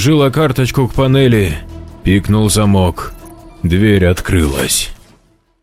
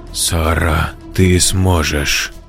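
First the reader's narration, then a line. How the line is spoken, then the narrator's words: Self-encouraging, after deep breath. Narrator (Russian): Вдохнула, выдохнула для решимости, сказала сама себе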